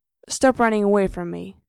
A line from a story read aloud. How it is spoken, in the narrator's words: Gerard says in an even tone